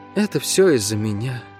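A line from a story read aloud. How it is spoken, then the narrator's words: Muffled, hollow. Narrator (Russian): глухо произнесла Гира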